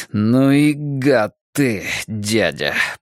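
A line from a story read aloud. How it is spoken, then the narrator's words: Hissing. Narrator (Russian): прошипел Двуха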